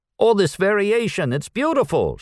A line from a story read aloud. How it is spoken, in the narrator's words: shouted Audrey